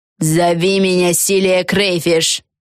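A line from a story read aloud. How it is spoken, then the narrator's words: Old witch barking. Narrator (Russian): рявкнула старая ведьма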